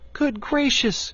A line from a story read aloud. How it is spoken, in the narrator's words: cried Dorothy